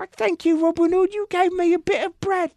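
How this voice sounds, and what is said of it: Put-on British accent. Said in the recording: “I sound just like the guy, Duncan, the assistant ... all British people talk like this a little bit”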